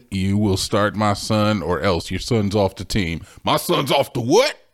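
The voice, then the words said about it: Put-on accent for a character. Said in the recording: “I didn't mean to give him that accent.”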